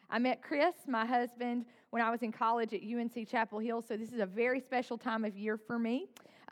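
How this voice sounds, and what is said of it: North Carolina Southern accent. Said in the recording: “I was raised by a single mom in a tiny town in the foothills of North Carolina. That's where the accent comes from that you're going to hear.”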